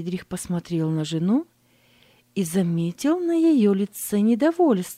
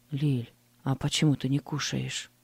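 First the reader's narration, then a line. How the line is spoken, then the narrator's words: Quiet question. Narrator (Russian): Тихо спросил он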